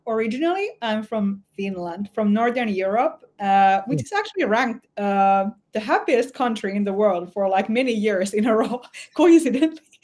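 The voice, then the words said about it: Foreign, non-New York accent. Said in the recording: “I hear accent, and I know it doesn't sound like it's New York”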